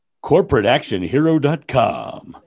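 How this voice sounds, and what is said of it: Radio announcer voice. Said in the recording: “My radio voice.”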